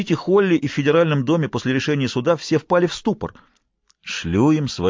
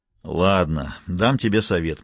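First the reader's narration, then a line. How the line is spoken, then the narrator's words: Grumbling. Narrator (Russian): проворчал детектив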